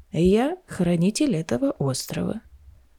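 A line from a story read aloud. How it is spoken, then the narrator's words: Creaky old man. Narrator (Russian): проскрипел старик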